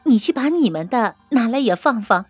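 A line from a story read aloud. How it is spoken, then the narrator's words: Smiling. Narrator (Chinese): 宝钗回头向翠墨笑道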